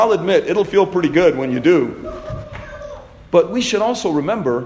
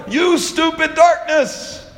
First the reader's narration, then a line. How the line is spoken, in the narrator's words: like Lucy, to yell